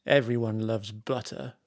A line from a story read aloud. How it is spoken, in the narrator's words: muttered Margie